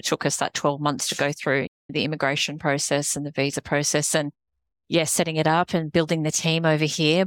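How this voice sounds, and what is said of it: Australian accent. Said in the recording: “The accent gives it away ... My American accent hasn't really kicked in just yet ... someone with this accent ... No, not British, Australian.”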